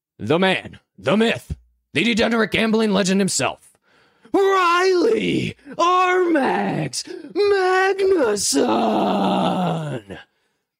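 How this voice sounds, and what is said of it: Booming ring-announcer style introduction. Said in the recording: “my best buffer impression”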